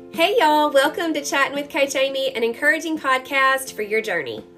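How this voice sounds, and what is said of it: Mississippi Southern accent. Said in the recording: “I have a very Mississippi Southern accent”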